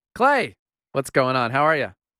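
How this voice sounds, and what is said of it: Radio announcer voice. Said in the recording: “you sound like you're doing a radio voice.”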